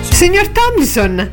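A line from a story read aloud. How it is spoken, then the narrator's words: Startled exclamation. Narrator (Italian): esclamò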